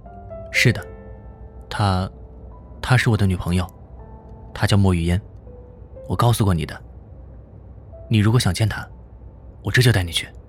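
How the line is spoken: Calm, flat. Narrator (Chinese): 冯耀淡淡的说着

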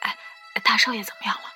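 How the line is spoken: Whispered question, several men. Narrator (Chinese): 几个男佣人便悄声问我

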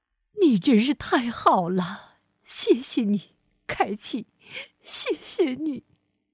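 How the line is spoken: Choked, tearful. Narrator (Chinese): 德兰太太一边用围裙擦眼泪，一边哽咽着说

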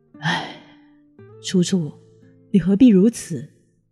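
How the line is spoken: Sighing. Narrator (Chinese): 可苏沫只是轻叹一口气

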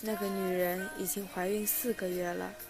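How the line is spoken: Soft, quiet. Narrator (Chinese): 罗格轻声说

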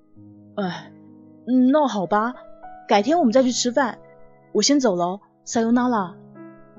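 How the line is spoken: Resigned sigh. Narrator (Chinese): 乔子修 只好叹了口气说

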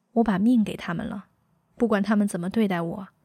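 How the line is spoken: Sad, wry smile. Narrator (Chinese): 他笑了一下，脸上纹路很愁，说

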